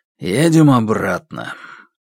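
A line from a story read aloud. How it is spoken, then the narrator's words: Quiet, after heavy sigh. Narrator (Russian): тяжело вздохнул и тихо сказал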